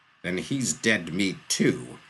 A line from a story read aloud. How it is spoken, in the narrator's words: snarled Jurten's father